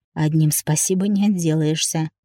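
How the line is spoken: Hoarse whisper. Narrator (Russian): хрипло прошептал

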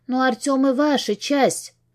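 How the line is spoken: Voice going hoarse. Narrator (Russian): Голос отчего-то хрипнет

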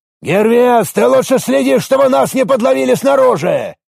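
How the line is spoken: Barking. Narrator (Russian): рявкнул Арес

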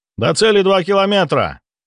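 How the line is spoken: Crisp report. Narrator (Russian): доложил штурман

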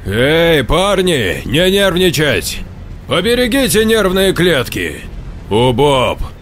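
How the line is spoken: Threatening bass. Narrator (Russian): Угрожающе пробасил Саня

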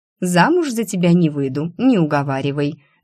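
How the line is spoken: Laughing. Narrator (Russian): рассмеялась я

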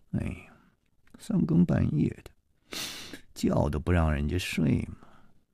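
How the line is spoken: Sleepy mumbling grumble. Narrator (Chinese): 夜里还喃喃地嘀咕着说

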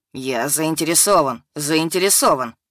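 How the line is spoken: Grumbled. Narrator (Russian): проворчал Вадим

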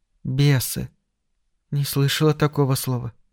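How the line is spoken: Hesitant startled whisper. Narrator (Russian): Плезанс вздрогнула и на мгновение замялась, потом произнесла шепотом

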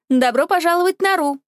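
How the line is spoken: Cheerful greeting. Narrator (Russian): бодро поздоровался бариста

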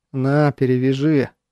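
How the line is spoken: Muttering. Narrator (Russian): буркнул я

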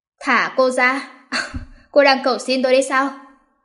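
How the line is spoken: Cold evil laugh. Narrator (Vietnamese): Hắn lạnh lùng cười một tiếng, giống như sa tăng trong đêm tối, tà ác

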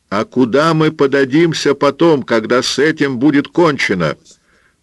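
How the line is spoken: Shouting into ear. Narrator (Russian): прокричала Пилар в ухо Эль Сордо

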